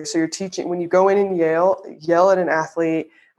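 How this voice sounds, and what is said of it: Southern American accent slipping out. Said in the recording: “my Southern accent just came out when I said when you go in and yell”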